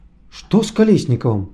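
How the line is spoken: Amazed exclamation. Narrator (Russian): изумленно воскликнул востроносый оператор Игорь Сергеевич

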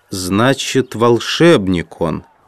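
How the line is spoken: Muttering. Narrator (Russian): пробормотал Джон Том

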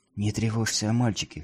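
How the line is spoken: Whispered. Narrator (Russian): шепнула она

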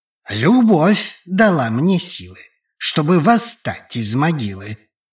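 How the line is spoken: Grim. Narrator (Russian): Мрачно отозвался Генри

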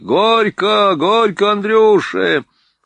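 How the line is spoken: Crowd loudly yelling. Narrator (Russian): со всех сторон так громко заорали

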